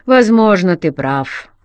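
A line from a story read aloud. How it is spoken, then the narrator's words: Grumbled. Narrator (Russian): проворчал Керман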